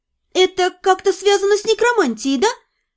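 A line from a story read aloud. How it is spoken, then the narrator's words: Uncertain. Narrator (Russian): неуверенно предположила я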